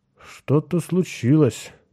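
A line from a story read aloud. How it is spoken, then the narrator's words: Mumbling. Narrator (Russian): пробормотал Кертис Ньютон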